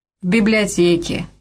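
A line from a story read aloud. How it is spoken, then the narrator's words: Gloomy. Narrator (Russian): мрачно сообщила Бетси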